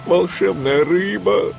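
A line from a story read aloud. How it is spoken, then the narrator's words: Pleading. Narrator (Russian): взмолился он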